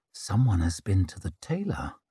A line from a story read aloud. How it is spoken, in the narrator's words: murmured Zuri